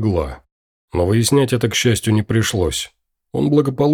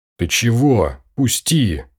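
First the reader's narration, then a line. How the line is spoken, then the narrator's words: Hissing like angry cat. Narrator (Russian): зашипела она, словно рассерженная кошка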